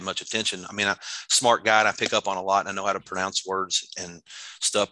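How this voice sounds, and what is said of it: Kentucky accent. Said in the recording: “a nice accent, you know, Kentucky accent.”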